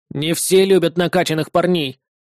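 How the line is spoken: Envious snort. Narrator (Russian): завистливо фыркнул осьминог

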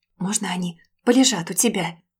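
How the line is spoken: Whisper, holding back tears. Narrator (Russian): прошептала, едва сдерживая слезы

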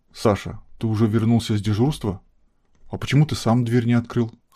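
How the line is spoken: Calm question. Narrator (Russian): спросила она вполне спокойно

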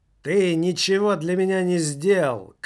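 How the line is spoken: Woman shouting. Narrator (Russian): кричала она

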